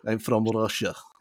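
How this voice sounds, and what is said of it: Put-on Russian accent. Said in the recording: “I'm not even gonna do the accent, right? Even though I can do the accents, I'm really good at accents”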